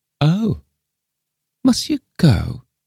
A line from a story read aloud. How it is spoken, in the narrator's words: quavered Miss Lefane dolefully